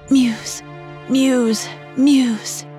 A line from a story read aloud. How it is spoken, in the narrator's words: he sighed